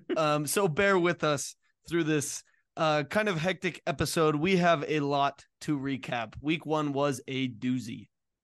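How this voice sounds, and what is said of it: Strained, recovering voice. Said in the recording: “my voice is still coming back to me ... my voice obviously was not”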